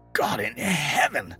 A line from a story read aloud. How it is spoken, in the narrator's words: I choked